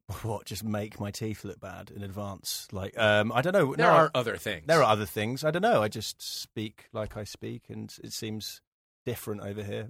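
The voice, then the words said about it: British accent, Britpop-like. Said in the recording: “especially British ... I like your accent. ... I think it's quite Britpop”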